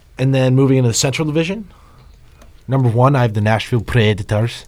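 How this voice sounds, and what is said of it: Put-on Scottish accent. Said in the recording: “It was a Scottish accent.”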